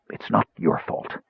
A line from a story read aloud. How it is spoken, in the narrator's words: the man whispered